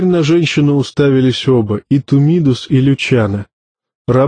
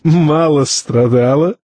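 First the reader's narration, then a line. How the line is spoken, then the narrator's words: Hysterical laugh. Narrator (Russian): истерически хохотнул Тарталья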